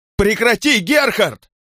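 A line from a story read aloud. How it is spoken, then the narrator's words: Shouting. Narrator (Russian): кричала Петра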